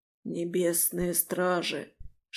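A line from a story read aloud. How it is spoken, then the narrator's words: Whispered reply. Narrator (Russian): шепнул тот в ответ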